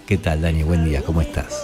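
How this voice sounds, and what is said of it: Seductive announcer voice, slightly hoarse. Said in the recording (Spanish): “Seductor, ¿no? Lo hizo como medio seductor. ... con voz de locutor lo hizo ... Medio ronco.”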